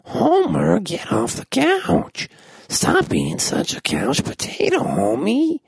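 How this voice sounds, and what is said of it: Imitates Marge Simpson's voice, not great. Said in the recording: “My voice is a little dry, and I didn't do the best Marge Simpson I could do”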